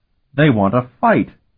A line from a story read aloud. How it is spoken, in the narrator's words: Tinian shouted jubilantly